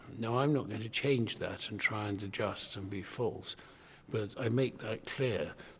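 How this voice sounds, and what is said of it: English public school accent. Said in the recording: “I have a public school accent”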